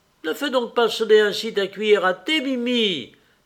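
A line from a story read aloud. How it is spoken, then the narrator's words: Exclaiming man. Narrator (French): s'écria le conseiller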